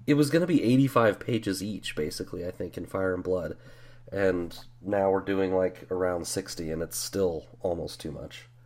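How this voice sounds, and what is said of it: Strained, worn-out voice. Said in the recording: “You might be able to tell my voice is screwed.”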